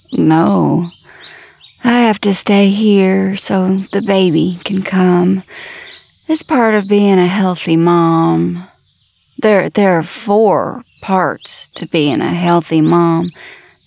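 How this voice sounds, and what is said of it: Southern accent. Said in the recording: “Your accent, where are you from? ... Down south.”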